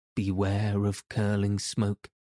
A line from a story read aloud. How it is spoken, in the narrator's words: said